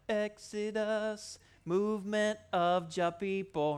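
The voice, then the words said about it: Sung in a reggae-style accent. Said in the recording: “sing in my reggae voice”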